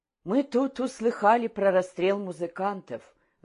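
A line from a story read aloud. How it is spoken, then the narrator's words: Sighing. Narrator (Russian): вздохнула Ульяна Толстокулакова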